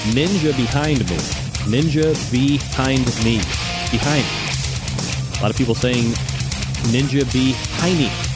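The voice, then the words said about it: New York accent. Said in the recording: “my New York accent coming through.”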